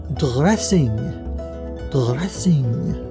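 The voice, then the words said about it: Put-on French or German accent. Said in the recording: “I couldn't decide if that was a French or a German accent.”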